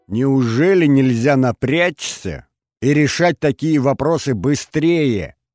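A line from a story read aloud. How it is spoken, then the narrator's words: Angry yelling. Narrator (Russian): орала Алена Андреевна Смирнова на своего начальника службы безопасности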